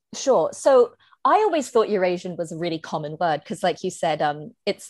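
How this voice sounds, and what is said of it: British accent. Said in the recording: “you have your British accent”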